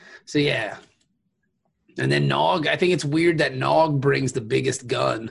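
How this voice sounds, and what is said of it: Usual voice. Nothing is said of it.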